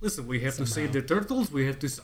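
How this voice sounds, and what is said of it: Jokey Russian accent. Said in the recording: “Why are they Russian? ... that's just the first jokey accent.”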